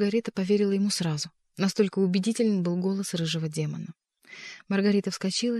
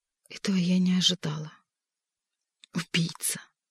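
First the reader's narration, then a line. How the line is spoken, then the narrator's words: Shuddering whisper. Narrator (Russian): содрогнулась и прошептала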